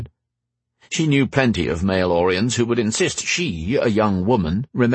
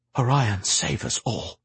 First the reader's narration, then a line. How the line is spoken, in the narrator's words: Alistair breathed